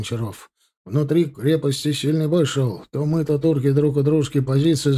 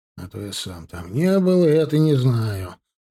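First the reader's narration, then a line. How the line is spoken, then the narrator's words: Grumbling. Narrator (Russian): проворчал капитан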